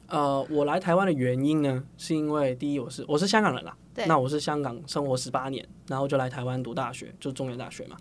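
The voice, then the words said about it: Hong Kong accented Mandarin. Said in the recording (Chinese): “口音好像有一点点，哎，跟台湾的人不太一样 ... 从香港来的”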